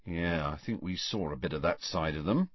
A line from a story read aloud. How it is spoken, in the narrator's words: said Ron in an undertone